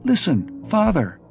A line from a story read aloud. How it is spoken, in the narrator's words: would exclaim